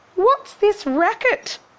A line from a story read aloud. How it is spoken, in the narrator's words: Cindy cried